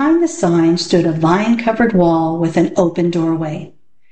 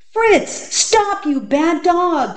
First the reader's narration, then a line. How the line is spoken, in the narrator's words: cried Alan